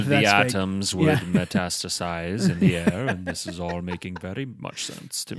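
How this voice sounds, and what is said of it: Character voice with put-on accent. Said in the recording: “I like this accent you gave this guy. That's good.”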